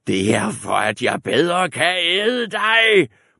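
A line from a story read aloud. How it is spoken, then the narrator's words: Roaring wolf. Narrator (Danish): brølede ulven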